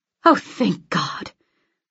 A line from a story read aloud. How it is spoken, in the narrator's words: I mutter